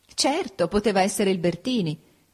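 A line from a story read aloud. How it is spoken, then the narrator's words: Laughing. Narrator (Italian): disse Ada ridendo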